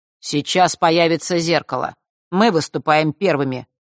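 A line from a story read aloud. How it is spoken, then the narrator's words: Cold declaration. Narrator (Russian): холодно заявил он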